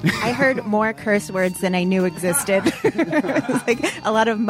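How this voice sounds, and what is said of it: Usual voice. Nothing is said of it.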